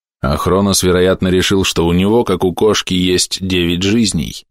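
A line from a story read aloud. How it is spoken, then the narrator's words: Gloomy older voice. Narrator (Russian): мрачно проговорил старший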